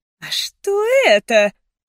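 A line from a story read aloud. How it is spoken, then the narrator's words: Disgusted cry. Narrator (Russian): вскрикнула она с отвращением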